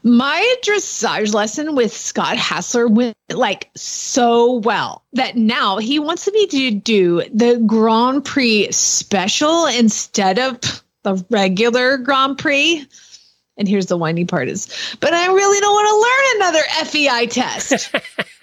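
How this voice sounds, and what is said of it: Valley Girl-like whiny voice. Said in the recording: “Your DQ voice sounds a lot like a Valley Girl voice.”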